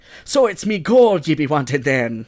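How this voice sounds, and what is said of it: Over-the-top sing-song Irish accent. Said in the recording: “Reading this phonetically makes it the most offensive Irish accent... It's it's, over the, top. Like this is the ultimate sing song.”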